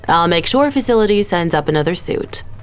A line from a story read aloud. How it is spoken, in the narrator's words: Denise said